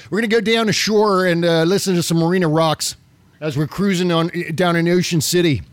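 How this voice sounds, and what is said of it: Put-on Maryland accent. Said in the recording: “I love the Maryland accent. I'm just doing the Maryland accent.”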